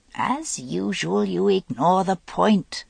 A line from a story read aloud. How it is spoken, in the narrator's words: said Vivian